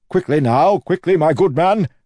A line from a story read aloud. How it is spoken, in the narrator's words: Wayne shouted